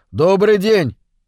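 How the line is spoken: Shouting into house. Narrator (Russian): крикнул Мур в дом

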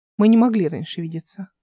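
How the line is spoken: Calm. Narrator (Russian): спокойно сказала Эл

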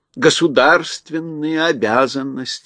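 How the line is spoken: Sighed by a lion. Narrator (Russian): вздохнул лев

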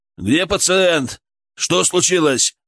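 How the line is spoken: Loud yell. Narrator (Russian): заорал старший

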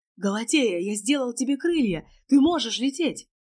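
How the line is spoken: Shouting. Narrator (Russian): крикнул Леонид Сергеевич

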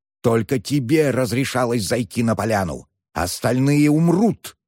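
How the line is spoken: Furious hiss. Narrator (Russian): разъяренно прошипел

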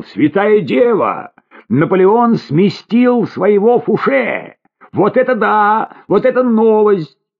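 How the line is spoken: Shouted at once. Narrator (Russian): тут же закричал

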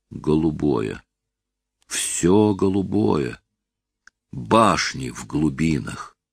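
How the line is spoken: Hesitant whistling whisper. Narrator (Russian): неуверенно сел и сказал свистящим шепотом

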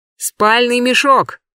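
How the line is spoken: Shout. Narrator (Russian): крикнул кто-то у воды

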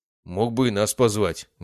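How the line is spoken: Contented grumble. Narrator (Russian): довольно пробурчал Эрик

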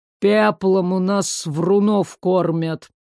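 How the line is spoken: Menacing, strained exhale. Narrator (Russian): Грозно выдохнул Ларс, все же осиливая подъем по стене

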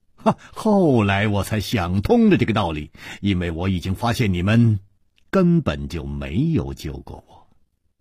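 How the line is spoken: Smiling, continuing. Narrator (Chinese): 楚留香笑了笑接着说

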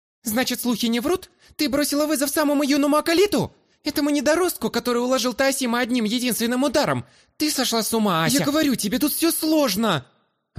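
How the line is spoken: Snapping back. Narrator (Russian): Огрызнулась огневолосая на подругу

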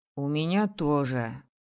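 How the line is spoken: Gloomy. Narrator (Russian): мрачно сообщил Лакет

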